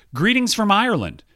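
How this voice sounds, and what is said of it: Put-on Irish accent. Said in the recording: “do you want to hear my Irish accent? ... Oh, that's very good. That's very good. No, it's not.”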